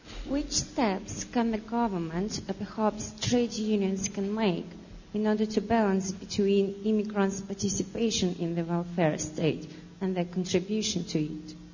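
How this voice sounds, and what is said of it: Speaks with an accent. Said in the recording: “I was just tuning into your accent.”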